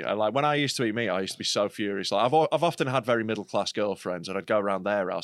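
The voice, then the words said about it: Regional British accent. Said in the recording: “I have a regional accent”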